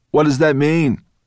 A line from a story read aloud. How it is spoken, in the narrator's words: one of the dragons called out